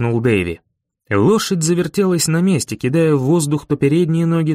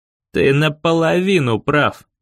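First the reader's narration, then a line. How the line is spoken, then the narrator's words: Growled. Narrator (Russian): прорычал я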